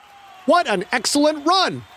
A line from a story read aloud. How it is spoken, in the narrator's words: Fayed screamed at him